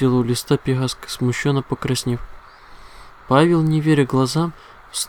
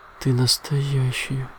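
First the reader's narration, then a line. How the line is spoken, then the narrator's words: Whisper. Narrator (Russian): прошептал лист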